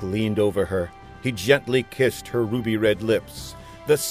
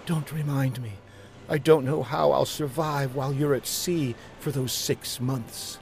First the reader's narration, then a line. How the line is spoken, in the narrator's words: A tear trickled down Marcia's cheek as she whispered